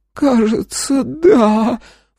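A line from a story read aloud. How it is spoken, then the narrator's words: Sobbing. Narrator (Russian): всхлипнула она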